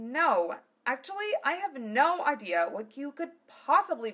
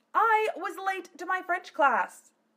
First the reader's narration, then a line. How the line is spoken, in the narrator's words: Phileas yelled in Zelos's face